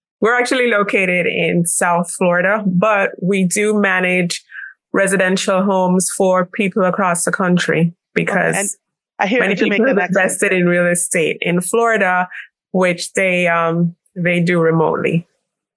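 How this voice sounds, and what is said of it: Jamaican accent. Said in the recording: “You sound Jamaican. ... Heard the accent.”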